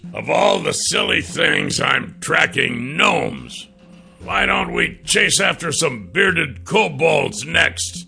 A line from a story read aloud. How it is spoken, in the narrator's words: The dwarven fighter had been grumbling